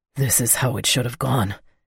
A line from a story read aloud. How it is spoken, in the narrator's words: he whispered up to me, cutting me off